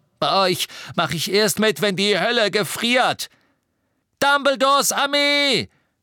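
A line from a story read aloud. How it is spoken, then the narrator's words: Shouting. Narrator (German): schrie Neville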